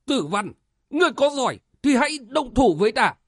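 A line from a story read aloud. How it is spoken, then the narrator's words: Frightened angry shout. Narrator (Vietnamese): Tưởng Úy Dần sợ toát mồ hôi, tức giận quát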